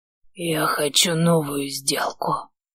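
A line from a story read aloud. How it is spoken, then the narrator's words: Hoarse rasp. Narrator (Russian): просипел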